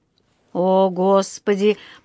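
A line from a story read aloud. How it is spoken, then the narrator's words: Groaning. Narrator (Russian): простонал мистер Браун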